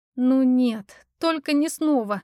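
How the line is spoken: Groaning. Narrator (Russian): застонала я

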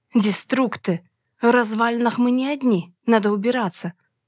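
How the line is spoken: Breathy exhale. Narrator (Russian): Выдохнула я

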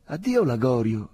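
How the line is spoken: Exclaimed. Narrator (Italian): esclamò Angustina

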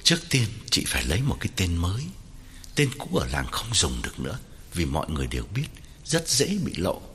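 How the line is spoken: Lowered voice. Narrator (Vietnamese): hạ giọng bảo Hậu

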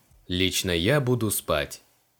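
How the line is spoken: Gloomy statement. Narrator (Russian): мрачно сообщил Криол

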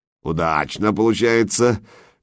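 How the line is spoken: Rumbling gravelly chuckle. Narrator (Russian): Берсерк снова хохотнул, как камни в бочке перекатились

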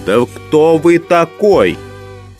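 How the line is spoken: Furious yell. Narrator (Russian): Совершенно освирепев, Никанор Иванович завопил

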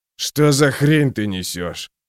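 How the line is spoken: Snort. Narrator (Russian): фыркнул Магвир

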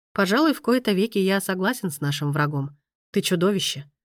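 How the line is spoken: Calm, resigned. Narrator (Russian): спокойно ответил Райно, как будто смирившись с ситуацией

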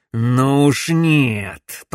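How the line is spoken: Growled. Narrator (Russian): прорычал Макс

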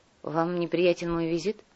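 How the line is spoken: Sighed. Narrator (Russian): вздохнул наемник

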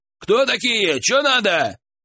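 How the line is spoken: Shout. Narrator (Russian): он крикнул

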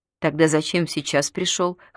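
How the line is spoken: Snort. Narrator (Russian): хмыкнула Белка

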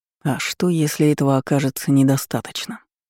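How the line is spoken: Whispered. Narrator (Russian): прошептал он

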